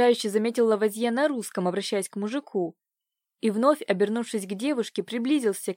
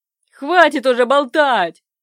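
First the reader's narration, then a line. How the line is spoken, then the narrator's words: Sudden roar from man. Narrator (Russian): Взревел вдруг один из мужиков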